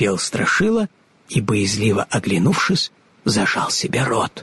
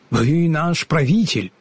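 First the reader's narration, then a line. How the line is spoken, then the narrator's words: Plain. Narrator (Russian): сказал он Страшиле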